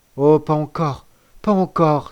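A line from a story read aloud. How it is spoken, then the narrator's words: Exclaimed. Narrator (French): s'écria celui-ci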